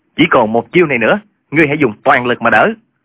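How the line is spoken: Pale, loud shout. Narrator (Vietnamese): Hà Túc Đạo tái mặt quát lớn

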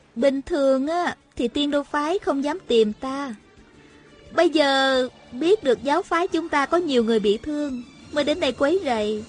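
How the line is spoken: Smiling. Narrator (Vietnamese): Hà Thiết Thụ mỉm cười nói

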